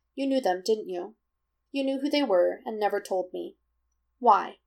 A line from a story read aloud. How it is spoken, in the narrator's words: Jiraiya falters